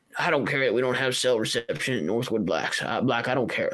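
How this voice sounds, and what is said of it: Exaggerated Chicago accent. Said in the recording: “that's a crazy Chicago accent”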